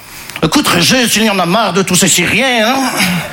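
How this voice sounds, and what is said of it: Put-on Belgian French accent. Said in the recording (French): “je prends l'accent belge parce que je ne sais pas faire l'accent chinois”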